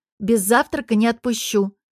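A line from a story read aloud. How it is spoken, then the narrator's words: Stern mother warning. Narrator (Russian): строго предупреждает мама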